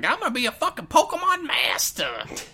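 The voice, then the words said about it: Weird accent imitating his childhood self. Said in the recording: “I had a weird accent when I was a kid.”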